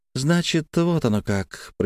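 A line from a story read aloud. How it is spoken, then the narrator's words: Thin-voiced, as if confirmed. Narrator (Russian): произнесла она тонким голосом, словно услышала правильный ответ на вопрос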